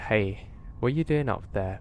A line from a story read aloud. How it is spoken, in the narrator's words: called out and said